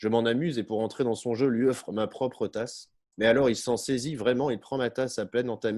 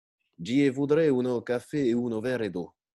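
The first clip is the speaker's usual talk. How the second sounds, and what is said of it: Slow exaggerated fake accent, detached syllables. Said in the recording (French): “lentement, avec un accent de foire et en détachant chaque syllabe”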